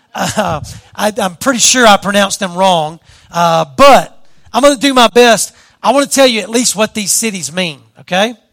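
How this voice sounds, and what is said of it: Southern Louisiana accent. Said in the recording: “my southern Louisiana accent”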